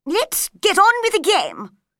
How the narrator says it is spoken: the queen said angrily

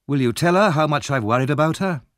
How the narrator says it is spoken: asked Harry

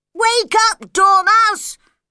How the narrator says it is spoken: they shouted loudly in its ears

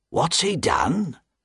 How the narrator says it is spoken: Jerry asked the doorman quietly

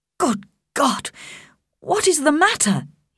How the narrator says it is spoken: he cried

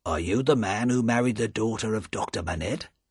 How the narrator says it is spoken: the first official said quietly to him

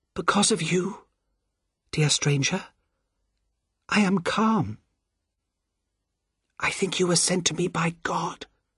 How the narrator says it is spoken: she whispers

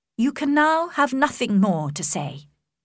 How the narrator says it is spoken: Elizabeth said coldly

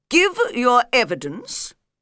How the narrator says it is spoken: said the king

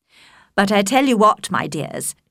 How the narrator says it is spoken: said brightly

